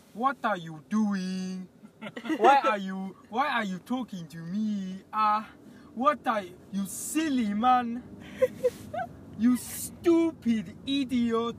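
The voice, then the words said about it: Put-on Nigerian accent. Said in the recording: “the Nigerian accent ... You can do the Nigerian accent, can't you? Do it.”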